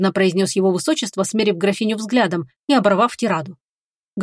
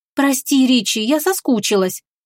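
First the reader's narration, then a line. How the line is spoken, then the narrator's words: Cooing. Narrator (Russian): проворковала она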